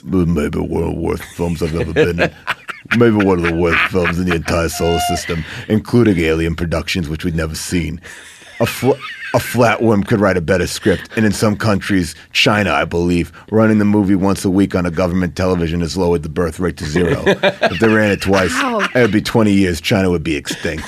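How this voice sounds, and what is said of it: Sylvester Stallone impression. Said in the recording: “Do it in a Stallone voice. Do it in a Stallone voice.”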